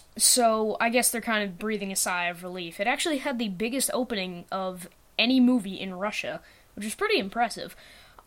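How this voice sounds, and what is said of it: American accent. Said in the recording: “I'm from the U.S., in case you can't tell by my voice.”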